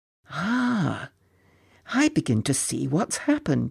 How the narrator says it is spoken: he murmured to himself

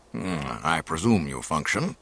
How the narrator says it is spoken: he grumbled

